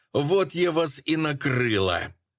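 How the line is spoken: Rough-voiced yell. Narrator (Russian): Сразу же заорала она грубым голосом

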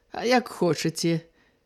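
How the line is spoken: Sly smiling speech. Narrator (Belarusian): як хідна усміхнуўся Раман

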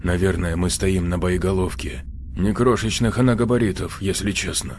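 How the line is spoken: Quiet voice. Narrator (Russian): тихим голосом проговорил Ионников

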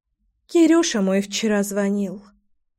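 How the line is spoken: Sighing. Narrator (Russian): вздохнула Вита

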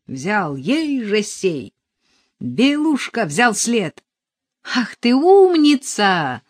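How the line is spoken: Ringing shout. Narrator (Russian): звонко кричала Арина

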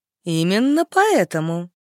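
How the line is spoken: Cheerful. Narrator (Russian): бодро ответила Стелла

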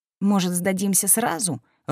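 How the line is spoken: Timid suggestion. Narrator (Russian): робко предложил

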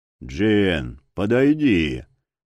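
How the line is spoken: Booming voice across arena. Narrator (Russian): прогудел на всю арену голос Верховного

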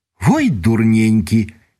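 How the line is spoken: Cheerful desperate exclamation. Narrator (Belarusian): весела адчайна ўсклікнула надзея

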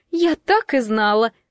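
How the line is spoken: Exclamation. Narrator (Russian): воскликнула Бриджит

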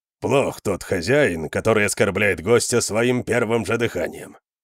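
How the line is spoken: Grumbling. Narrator (Russian): проворчал Конан

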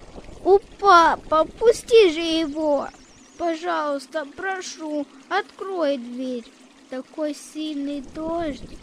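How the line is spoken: Broken by sobs. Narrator (Russian): Рыдания прервали его речь

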